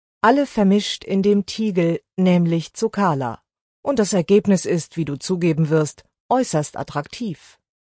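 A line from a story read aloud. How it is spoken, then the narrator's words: Quiet speech. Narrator (German): sagte sie leise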